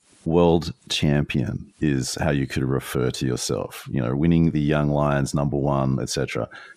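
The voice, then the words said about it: Australian accent. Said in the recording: “I have an Australian accent”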